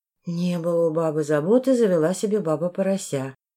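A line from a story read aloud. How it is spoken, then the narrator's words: Muttering. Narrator (Russian): пробормотала я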